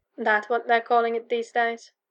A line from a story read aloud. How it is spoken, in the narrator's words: giggles into the phone